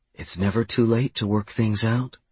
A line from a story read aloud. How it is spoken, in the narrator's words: she whispered in my ear